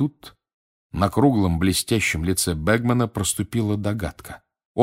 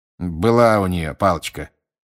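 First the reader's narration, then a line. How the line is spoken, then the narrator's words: Grumbling. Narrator (Russian): проворчал мистер Диггери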